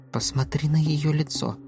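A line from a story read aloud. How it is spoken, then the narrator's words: Whisper. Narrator (Russian): шепнула Врана Галлии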